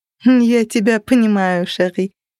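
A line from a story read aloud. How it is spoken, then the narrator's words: Laughing. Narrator (Russian): рассмеялась она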